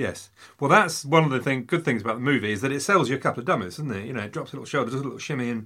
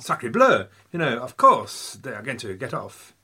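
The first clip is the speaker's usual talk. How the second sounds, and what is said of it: Put-on French accent. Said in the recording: “Why am I talking to a French accent? ... Why are you still doing that?”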